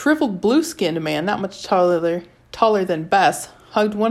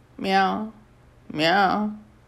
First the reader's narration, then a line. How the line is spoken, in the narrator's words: An old woman with a grizzled lioness's head, mumbling